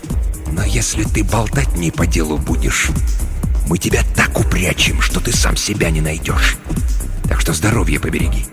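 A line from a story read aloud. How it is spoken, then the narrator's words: Disgusted hiss. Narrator (Russian): брезгливо морщась, прошипел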